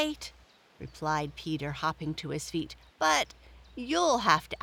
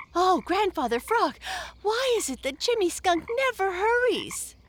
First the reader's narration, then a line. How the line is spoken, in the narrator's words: panted